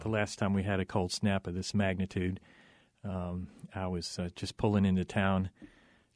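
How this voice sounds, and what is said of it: North Carolina accent. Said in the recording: “The accent isn't local. I come from North Carolina.”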